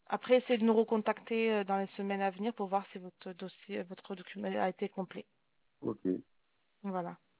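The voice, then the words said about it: Speaks with a pleasant accent. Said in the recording (French): “J'entends une belle accent de l'autre côté ... un accent sympa.”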